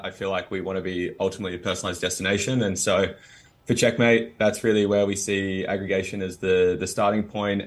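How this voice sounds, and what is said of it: Australian accent. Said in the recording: “Americans and Australians, which is, you know, where my accent from”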